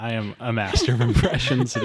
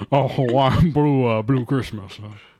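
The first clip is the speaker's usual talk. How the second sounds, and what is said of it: Elvis impression. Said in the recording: “his Elvis impression.”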